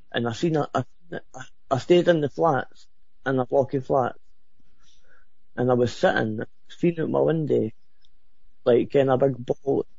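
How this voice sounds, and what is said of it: Very thick accent. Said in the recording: “you have an accent that I could cut with a knife”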